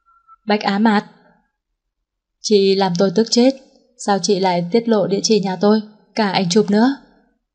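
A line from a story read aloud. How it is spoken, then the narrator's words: Hissing scream. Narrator (Vietnamese): anh đã rít gào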